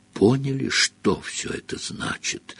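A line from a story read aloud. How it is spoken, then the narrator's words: Breathless exhale. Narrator (Russian): выдохнул он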